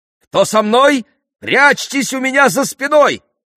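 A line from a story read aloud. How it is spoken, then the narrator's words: Shouting. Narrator (Russian): крикнул Персей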